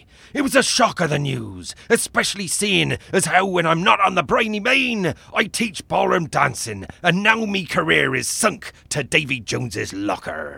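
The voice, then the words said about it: Pirate voice. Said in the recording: “talk like a pirate”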